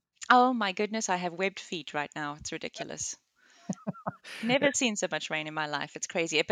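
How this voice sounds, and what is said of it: South African accent with British influence. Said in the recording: “where that accent comes from ... born and raised in South Africa ... moved to the UK ... the muddling of my accent ... I'm still working on my American accent. So far, not so successfully”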